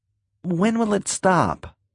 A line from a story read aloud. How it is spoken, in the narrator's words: Earl asked uneasily